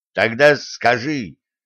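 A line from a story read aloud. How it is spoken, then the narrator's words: Angry coach barking. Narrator (Russian): сердито рявкнул тренер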